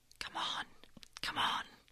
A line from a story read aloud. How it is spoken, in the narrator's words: the road whispers